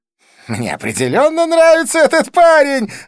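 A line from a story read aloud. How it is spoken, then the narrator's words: Exclaimed. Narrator (Russian): воскликнул Близнец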